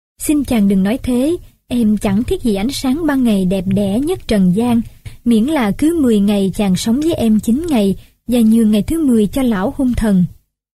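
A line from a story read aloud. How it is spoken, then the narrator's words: Smiling reply. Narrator (Vietnamese): nàng mỉm cười đáp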